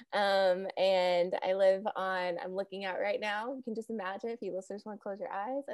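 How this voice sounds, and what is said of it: Southern US accent. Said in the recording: “In the South, I'm sure you can tell from my accent.”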